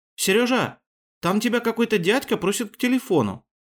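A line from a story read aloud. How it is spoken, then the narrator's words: Cheerful announcement. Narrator (Russian): сообщила радостно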